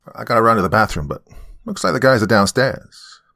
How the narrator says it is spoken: Pat said quickly

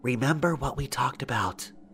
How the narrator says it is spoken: the FBI lady whisper

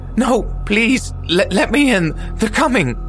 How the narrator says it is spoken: The woman shrieked

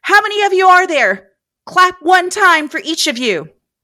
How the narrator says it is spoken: Fearing for their lives and the answer to their next question, Beth yelled

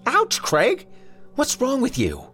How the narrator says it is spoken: Her voice was pinched into an expression of bewildered annoyance

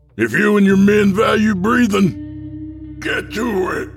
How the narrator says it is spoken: the leader shouts

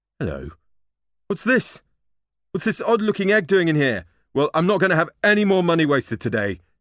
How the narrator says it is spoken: he thundered

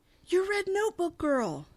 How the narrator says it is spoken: Boomer chases her out, exclaiming

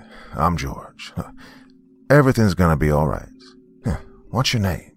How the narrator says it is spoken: asked, his voice deeper than the greatest depths of the ocean

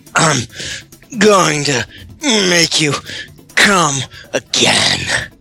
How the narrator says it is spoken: he grunted to her

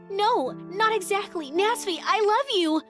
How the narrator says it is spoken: I shouted desperately

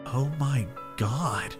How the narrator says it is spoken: whispered, putting my hand over my mouth

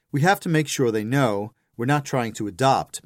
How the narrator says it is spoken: Matthew says

